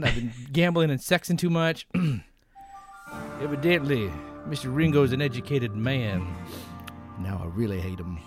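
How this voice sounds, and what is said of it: Impression with a protracted drawl. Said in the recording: “That was really good. Your draw is a little too like protracted, but that was excellent, man.”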